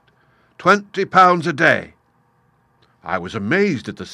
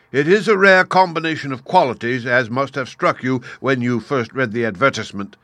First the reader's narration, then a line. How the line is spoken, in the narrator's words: said Lord Lynchmere